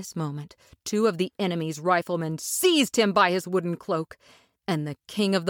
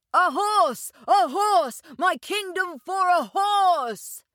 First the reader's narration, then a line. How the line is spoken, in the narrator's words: he shouted in wild despair